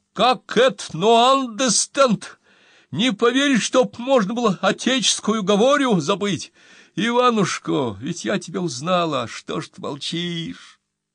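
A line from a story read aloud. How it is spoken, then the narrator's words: Crying shout. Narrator (Russian): А графена закричала с плачем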